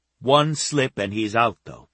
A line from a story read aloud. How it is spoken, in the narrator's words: she said, looking at him sternly